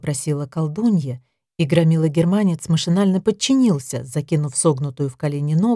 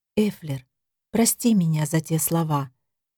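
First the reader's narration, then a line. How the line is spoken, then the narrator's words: Whispered. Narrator (Russian): прошептала Дея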